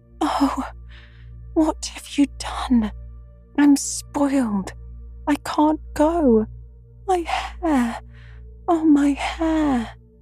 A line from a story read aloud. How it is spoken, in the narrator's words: wailed Meg, looking with despair